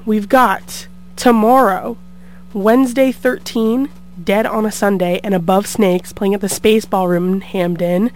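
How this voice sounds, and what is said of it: Strained, recovering voice. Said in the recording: “My voice is still recuperating from last week.”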